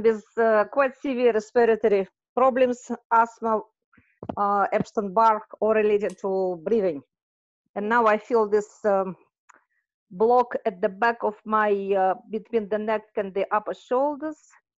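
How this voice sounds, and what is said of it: Thick accent. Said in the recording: “your accent's a little thick for me”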